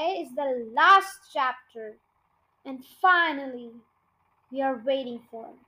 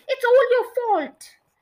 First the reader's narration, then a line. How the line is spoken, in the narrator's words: yelled Mr